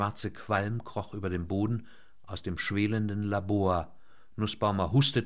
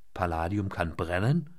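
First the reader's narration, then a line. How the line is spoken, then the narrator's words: Dry question. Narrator (German): fragte der Amerikaner trocken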